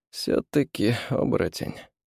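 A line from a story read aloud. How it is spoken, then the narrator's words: Sighing. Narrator (Russian): вздохнул мистер Харкер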